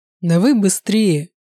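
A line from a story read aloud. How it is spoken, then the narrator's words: Hoarse, strained voice. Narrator (Russian): Голос его был хриплым от натуги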